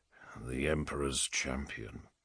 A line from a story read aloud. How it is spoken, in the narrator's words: Abaddon said quietly